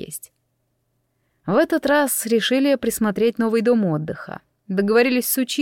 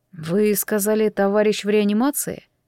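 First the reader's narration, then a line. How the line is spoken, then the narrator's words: Hoarse voice. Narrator (Russian): Голос мой звучал хрипло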